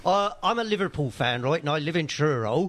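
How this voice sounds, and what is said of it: Put-on southwest English accent. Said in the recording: “But you got the accent correct... It did sound a little bit more southwest.”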